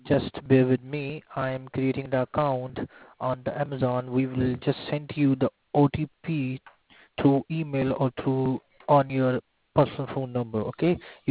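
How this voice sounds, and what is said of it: Heavy foreign accent, hard to understand. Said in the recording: “I can hear you, but I can't understand your accent.”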